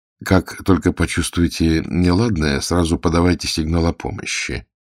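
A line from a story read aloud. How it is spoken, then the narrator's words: Gentle correction. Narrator (Russian): мягко поправил бегущая пума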